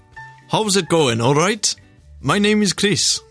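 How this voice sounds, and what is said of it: Poor attempt at Welsh accent. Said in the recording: “her accents are up there with yours. Do Welsh, go.”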